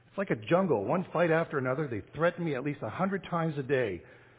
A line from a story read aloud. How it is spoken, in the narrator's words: cried the son